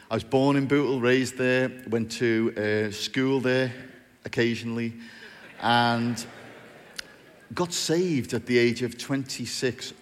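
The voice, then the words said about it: Strong North Liverpool accent. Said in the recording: “I talk with a strange accent. I'm from a place called Bootle in North Liverpool.”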